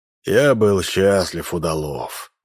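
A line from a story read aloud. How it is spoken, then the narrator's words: Hoarse. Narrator (Russian): произнес хрипло Минц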